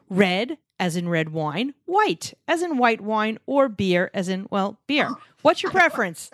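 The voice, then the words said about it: New York accent. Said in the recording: “I still have a New York accent.”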